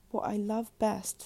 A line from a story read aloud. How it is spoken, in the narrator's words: sighed the duckling